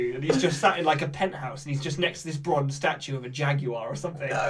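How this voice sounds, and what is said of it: Usual voice. Nothing is said of it.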